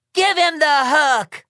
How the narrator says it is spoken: shouts the American representative to the UN, the lady who invited me to speak in the first place

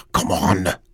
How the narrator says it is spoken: he muttered to himself

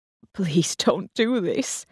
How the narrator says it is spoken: he croaked

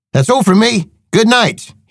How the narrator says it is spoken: he shouted

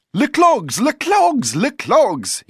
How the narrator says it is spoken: he cried

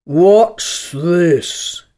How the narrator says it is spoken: he said, speaking in a deep hollow tone that sounded like the tolling of a great bell

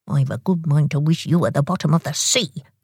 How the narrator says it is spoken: grumbled Tock

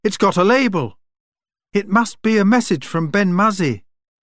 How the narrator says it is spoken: cried Joel

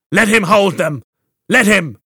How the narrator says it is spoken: one shouted

